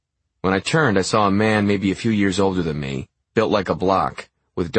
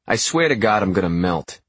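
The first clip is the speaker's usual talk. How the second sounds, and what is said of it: Sharp New Jersey accent. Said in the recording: “in a sharp New Jersey accent.”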